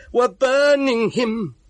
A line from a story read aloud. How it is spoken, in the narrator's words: screamed